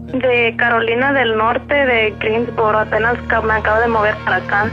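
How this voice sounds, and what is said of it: Spanish with US-influenced accent. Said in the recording (Spanish): “se oye el acentito acá sabrosón ... Se oye el acento y que hablas acá del gabacho”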